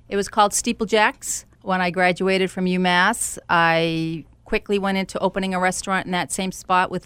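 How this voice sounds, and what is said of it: Boston-area accent. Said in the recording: “where from near Boston are you from originally? ... I love your accent.”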